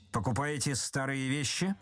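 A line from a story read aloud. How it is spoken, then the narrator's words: Menacing question. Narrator (Russian): спросил Остап грозно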